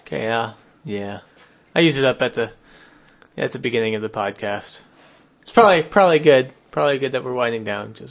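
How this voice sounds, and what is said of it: Calm, low-energy radio-announcer voice. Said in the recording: “You just lost all your energy ... now you've got your NPR voice.”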